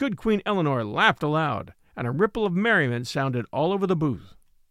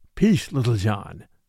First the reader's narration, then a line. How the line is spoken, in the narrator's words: said Robin Hood hastily, in a low voice